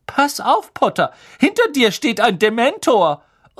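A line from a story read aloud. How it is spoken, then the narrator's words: Shrieked. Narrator (German): kreischte Lavender Brown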